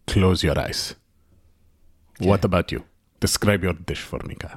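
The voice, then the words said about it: Speaks in a put-on accent. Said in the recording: “What is this accent?”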